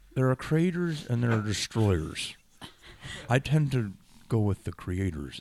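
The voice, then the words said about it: Imitates another person's voice. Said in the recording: “that's a weird, bad impression”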